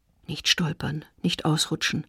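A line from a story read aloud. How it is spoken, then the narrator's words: Woman quietly to herself. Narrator (German): sagt sich die Frau leise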